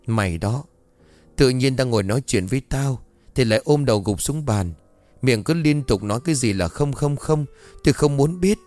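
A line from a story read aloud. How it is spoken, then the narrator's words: Trembling voice. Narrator (Vietnamese): Linh run rẩy cất giọng thuật lại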